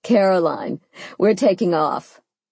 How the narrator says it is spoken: Sophia giggled

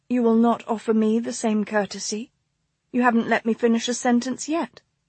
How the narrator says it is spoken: she murmured

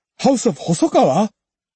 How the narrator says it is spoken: Rinshobo's eyes betrayed his shock, and he barely caught himself before blurting out

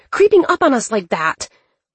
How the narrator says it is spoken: Dylan shouted

